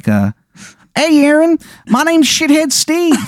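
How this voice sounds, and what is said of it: Deliberately bad Maryland accent. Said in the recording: “the worst Maryland accent you have ever heard in your life ... It is bad.”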